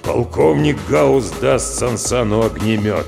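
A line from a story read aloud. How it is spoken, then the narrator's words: Gloomy deep bass. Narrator (Russian): пробасил Гаус хмуро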